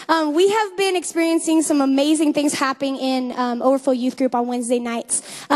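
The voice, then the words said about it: Voice slightly affected by a cold. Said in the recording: “I have a little bit of a cold,”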